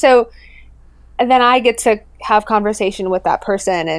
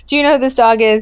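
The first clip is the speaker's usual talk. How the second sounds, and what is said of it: Poorly done put-on accent. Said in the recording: “that's a terrible accent”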